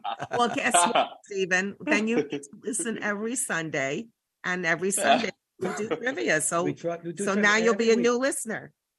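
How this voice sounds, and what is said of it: Hoarse, recovering voice. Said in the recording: “Excuse my voice. It's trying to come back”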